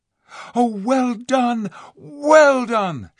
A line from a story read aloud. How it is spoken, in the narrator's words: shouted